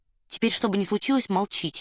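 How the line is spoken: Quiet, very serious. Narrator (Russian): негромко и очень серьезно сказал Фандорин

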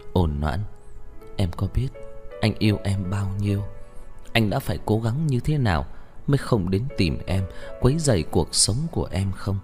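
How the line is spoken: Gentle question. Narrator (Vietnamese): Một câu nghi vấn rất nhẹ nhàng

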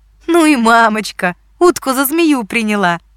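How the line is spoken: Speaking through laughter. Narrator (Russian): сквозь смех проговорила она

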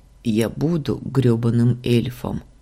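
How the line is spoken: Muttering. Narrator (Russian): бормотание Варлама

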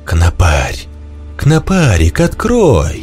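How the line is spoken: Louder, still coaxing. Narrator (Russian): Потом погромче, но все так же вкрадчиво

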